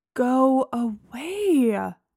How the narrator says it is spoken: I moaned

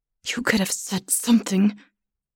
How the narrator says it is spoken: she says through gritted teeth

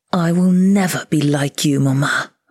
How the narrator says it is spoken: I snarled

